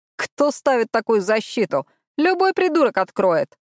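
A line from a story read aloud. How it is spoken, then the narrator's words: Snorting. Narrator (Russian): фыркнул Райли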